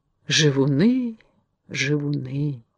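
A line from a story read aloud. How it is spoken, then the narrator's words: Sighing whisper. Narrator (Russian): прошептал он со вздохом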